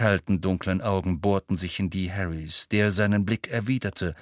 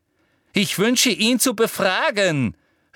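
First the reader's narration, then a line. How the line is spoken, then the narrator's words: Angry shout. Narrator (German): rief Umbridge zornig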